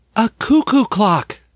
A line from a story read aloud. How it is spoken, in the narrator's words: Doris cried